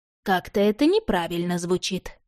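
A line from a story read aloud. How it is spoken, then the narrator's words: Thoughtful. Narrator (Russian): задумчиво проговорила Кармелла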